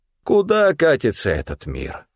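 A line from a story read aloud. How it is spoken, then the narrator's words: Tragic sigh. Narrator (Russian): трагично вздохнул Стефан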